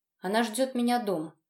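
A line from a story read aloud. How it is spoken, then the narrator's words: Curt, clipped speech. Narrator (Russian): отрывисто проговорил я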